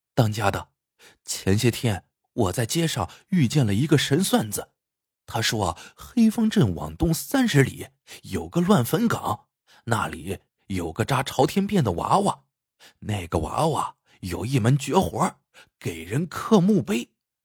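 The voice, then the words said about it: Speaking in a quiet, hushed voice. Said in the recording (Chinese): “小声说道”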